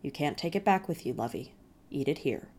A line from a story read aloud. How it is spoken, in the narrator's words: said, very gently